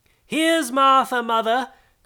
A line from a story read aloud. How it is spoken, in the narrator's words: cried two young Cratchits